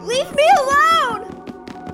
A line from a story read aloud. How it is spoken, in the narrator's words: yelled Chelsea